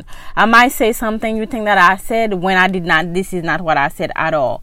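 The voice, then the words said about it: Speaks with a noticeable accent. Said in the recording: “you got an accent ... when you have an accent”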